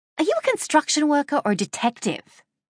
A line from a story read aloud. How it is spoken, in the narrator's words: I snapped at him